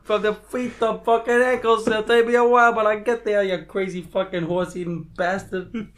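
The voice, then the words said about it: Put-on New Jersey accent. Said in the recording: “nothing funnier than a Jersey accent.”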